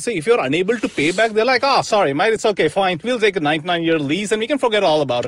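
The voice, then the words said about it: Put-on Australian accent. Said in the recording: “I broke into an Australian accent. ... Chinese Australian accent.”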